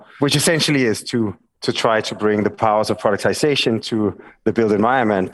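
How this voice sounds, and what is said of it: Danish accent. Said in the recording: “Danish accent”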